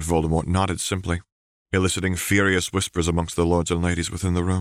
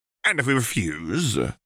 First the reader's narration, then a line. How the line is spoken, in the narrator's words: Knott asked haughtily